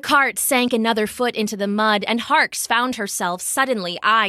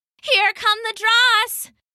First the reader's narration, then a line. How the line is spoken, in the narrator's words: Nezzy shouted behind her